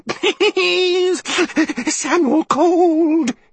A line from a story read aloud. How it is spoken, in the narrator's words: he whined